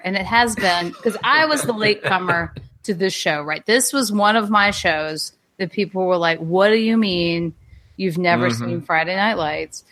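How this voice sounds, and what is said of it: Strong accent. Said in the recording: “my accent is like on fire”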